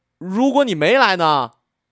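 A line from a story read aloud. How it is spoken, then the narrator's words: Loud shout. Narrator (Chinese): 我大喊一声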